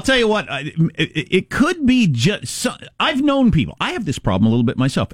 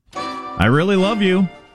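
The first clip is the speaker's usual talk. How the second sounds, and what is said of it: Sincere words sounding sarcastic. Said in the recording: “Everybody thinks I am being sarcastic all the time, even when I'm being serious... Sounds like I'm being sarcastic.”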